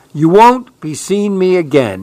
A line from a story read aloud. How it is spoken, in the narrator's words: he cried